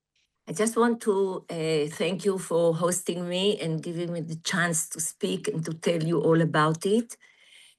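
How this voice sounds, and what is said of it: Husky voice. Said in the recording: “my sexy voice ... it's a bit husky”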